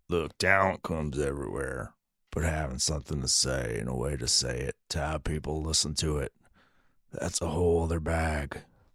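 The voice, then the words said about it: Deep throaty film character impression. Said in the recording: “That's my Jackson Maine impersonation ... You got to like do it deep in your throat.”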